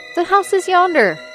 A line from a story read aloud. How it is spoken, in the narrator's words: Scrooge exclaimed